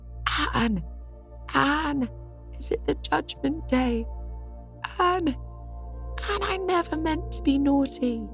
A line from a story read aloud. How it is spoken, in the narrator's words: Davy, at the first crash, had howled